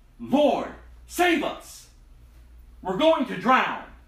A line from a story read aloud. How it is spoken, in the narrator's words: shouting